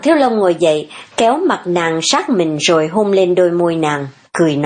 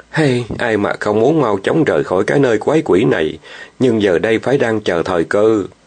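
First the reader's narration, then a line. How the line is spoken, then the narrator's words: Sighing. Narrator (Vietnamese): Hàng Thiếu Long thở dài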